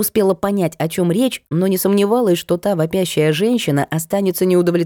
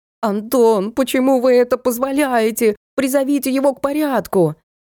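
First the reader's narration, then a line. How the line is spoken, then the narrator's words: Offscreen woman screaming hysterically. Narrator (Russian): какая-то женщина за кадром истошно вопила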